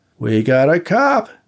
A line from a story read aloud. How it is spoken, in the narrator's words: he shouted to Seymour